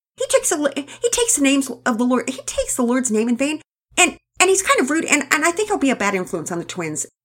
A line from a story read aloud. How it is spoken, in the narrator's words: Penelope blurted out in a twisted torrent of words